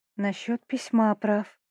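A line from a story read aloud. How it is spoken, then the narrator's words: Whispered. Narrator (Russian): шепнула я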